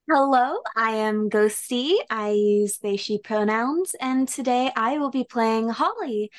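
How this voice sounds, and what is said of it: Usual voice. Nothing is said of it.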